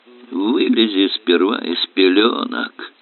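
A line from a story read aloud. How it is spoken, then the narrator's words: Grumble. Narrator (Russian): пробурчал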